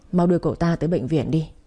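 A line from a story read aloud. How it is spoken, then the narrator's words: Sighing speech. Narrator (Vietnamese): thở dài một tiếng rồi nói với mấy đứa em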